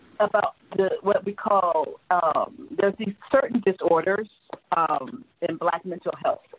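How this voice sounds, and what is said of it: Usual voice. Nothing is said of it.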